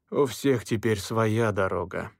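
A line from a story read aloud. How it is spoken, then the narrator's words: Sighing. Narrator (Russian): вздохнул он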